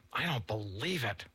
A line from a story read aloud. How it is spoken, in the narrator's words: the boy breathed through clenched teeth